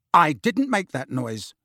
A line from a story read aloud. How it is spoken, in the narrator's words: said Harry firmly